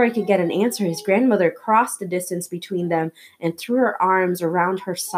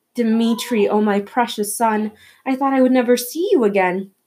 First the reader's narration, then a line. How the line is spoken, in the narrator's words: she cried, tears of joy, her small bony shoulders shaking